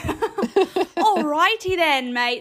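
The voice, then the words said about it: Put-on Australian accent. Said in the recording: “No, that's Australian now.”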